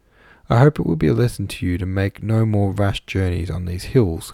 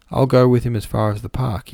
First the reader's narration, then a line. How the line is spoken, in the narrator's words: he said